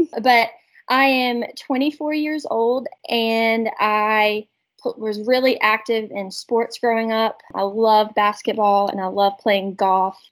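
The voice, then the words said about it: Strong country Southern accent. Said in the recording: “I have a pretty country accent too ... I feel like mine's worse”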